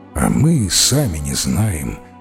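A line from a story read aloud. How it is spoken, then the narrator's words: Old man's sigh. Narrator (Russian): вздохнул старый садовник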